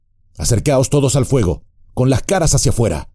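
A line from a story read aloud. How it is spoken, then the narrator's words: Shouting. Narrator (Spanish): gritó Trancos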